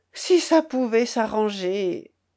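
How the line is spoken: Sighing. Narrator (French): dit Berthe avec un soupir

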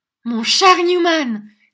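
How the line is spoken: Shouted. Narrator (French): cria Nicolas

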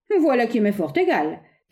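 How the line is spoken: Offhand, nonchalant exclamation. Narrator (French): s'écria Fred Jorgel avec une désinvolture superbe

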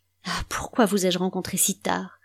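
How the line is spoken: Moaned. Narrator (French): gémit-il

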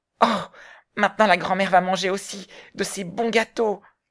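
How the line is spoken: Joyful exclamation. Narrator (French): Heidi recouvra la parole et s'écria, hors de joie

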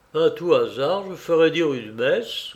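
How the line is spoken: Grumbled. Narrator (French): grommela-t-il

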